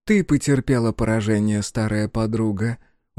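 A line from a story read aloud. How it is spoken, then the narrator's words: Weary. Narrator (Russian): устало промолвила Танванаки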